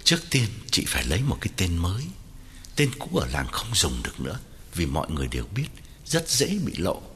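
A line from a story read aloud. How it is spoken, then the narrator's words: Lowered voice. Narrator (Vietnamese): hạ giọng bảo hậu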